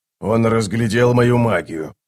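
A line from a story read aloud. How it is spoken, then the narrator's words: Grumbled mutter. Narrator (Russian): буркнул Оцелот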